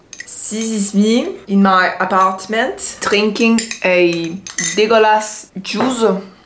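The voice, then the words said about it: Put-on French accent. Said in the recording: “try to make a French accent”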